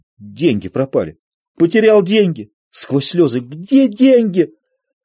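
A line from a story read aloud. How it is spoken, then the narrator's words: Joyful. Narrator (Russian): Радостно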